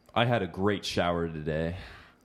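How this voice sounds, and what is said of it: Attempted American accent. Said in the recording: “Try and speak with an American accent. Try really hard. ... I've done my American accent”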